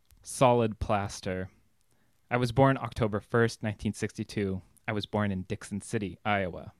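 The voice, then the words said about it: American accent. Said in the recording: “it needs to be done in an American accent”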